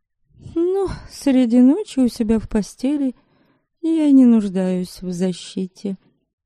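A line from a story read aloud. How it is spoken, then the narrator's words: Sarcastic. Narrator (Russian): язвительно произнесла Ересава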